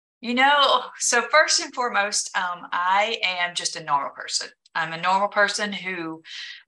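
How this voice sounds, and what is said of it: Southern American accent. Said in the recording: “don't let the accent fool you ... I've always been a Southern girl”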